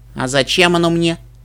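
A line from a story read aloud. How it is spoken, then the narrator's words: Snort. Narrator (Russian): фыркнул Нед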